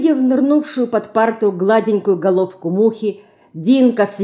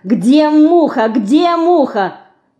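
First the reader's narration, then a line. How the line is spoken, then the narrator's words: Furious, frenzied shouting. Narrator (Russian): Динка словно слепшая от бешенства кричала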